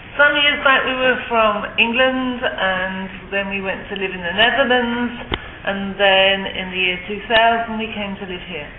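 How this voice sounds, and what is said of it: Non-Californian, English accent. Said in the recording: “I detect an accent. Where are you guys from? This is not California accent.”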